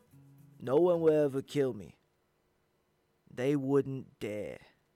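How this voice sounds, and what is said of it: Put-on accent. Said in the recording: “I wanted to try and do an accent there. I hope it landed somewhere.”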